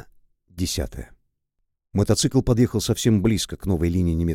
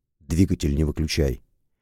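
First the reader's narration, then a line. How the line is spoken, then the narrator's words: Quiet. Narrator (Russian): негромко сказал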